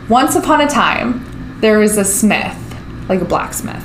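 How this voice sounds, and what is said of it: Storytelling reading voice. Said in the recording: “put on my reading voice”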